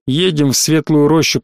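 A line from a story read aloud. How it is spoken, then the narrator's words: Grumbled. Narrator (Russian): проворчал я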